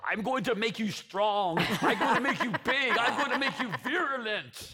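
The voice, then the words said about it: Imitated German accent. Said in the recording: “he has a German accent”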